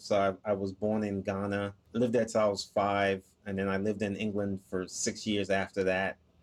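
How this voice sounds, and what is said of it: Blended non-Southern accent, New Jersey-like. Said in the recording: “that's a really cool accent I'm detecting from ... but I don't think that's a Southern accent ... my accent is just a blend of different places I've lived ... a lot of people say my accent sounds like I'm from New Jersey”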